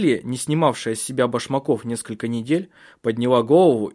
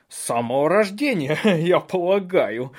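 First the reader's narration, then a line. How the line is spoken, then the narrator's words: Loud laughter. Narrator (Russian): громко захохотал Бенедикт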